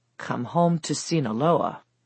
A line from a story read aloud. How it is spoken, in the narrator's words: she muttered under her breath